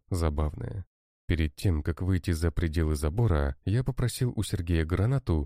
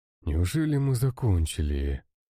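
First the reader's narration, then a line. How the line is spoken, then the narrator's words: Tired sigh. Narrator (Russian): Устало вздохнул Сергей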